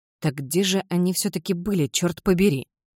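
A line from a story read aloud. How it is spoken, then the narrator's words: Muttered. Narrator (Russian): пробормотала Селия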